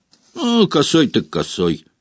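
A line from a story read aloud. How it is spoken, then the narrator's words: Snorting. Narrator (Russian): хмыкнул Стэн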